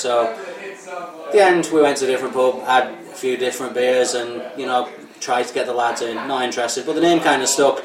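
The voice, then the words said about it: Northern English accent. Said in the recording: “obviously you can tell by the accent. I grew up in Northern England”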